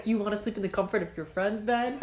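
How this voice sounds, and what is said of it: Put-on male-sounding voice. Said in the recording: “to do a guy voice”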